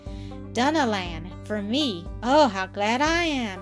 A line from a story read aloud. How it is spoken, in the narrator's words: exclaimed Mildred the next instant